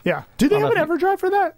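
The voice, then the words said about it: Suddenly high-pitched voice. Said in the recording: “did my voice get so high there”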